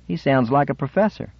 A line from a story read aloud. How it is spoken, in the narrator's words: one of the other men said, laughing